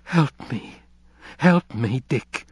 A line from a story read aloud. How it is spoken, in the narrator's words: Her own face softened, and she begged